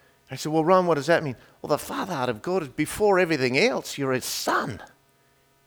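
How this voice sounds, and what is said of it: Usual voice. Nothing is said of it.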